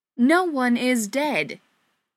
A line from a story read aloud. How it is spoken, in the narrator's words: Joe exclaimed, breaking through Patrick's thoughts